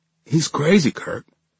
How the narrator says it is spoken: I whispered, now fighting my own tears

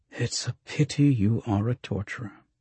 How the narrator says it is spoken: Oltan said

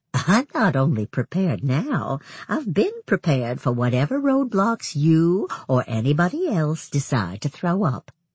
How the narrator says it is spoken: with a soft laugh, she said

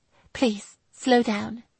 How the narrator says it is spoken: she whispered

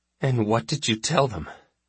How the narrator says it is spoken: I asked, my voice cracking in anxiety

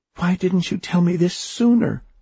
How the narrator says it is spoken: she cried

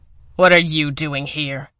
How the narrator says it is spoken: He snarled

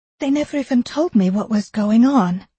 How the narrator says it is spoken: Eleanor said urgently to the doctor

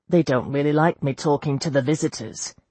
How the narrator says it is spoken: said Lawrence

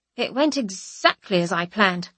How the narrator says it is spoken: I say, my voice a snap like a rib cracking

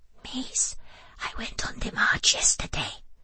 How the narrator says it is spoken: whispered chubby Zainab, her eyes shining with excitement

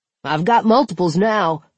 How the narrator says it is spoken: Zeller barked

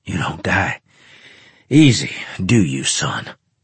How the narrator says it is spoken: he asked when we found a spot to hide and gasp for breath

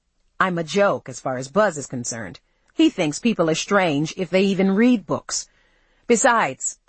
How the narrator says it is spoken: I added bitterly

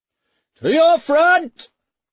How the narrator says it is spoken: bellowed Kilbert

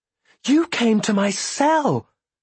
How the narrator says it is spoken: I exclaimed

